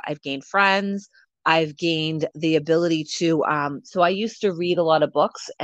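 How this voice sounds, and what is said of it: Hoarse, strained voice. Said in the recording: “sorry about my voice. I've had this cough for like a month”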